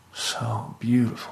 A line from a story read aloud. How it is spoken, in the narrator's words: she muttered